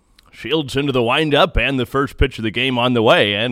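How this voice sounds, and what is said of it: Denny Matthews baseball announcer impression. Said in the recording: “I do a Denny Matthews impression ... my Denny Matthews impression”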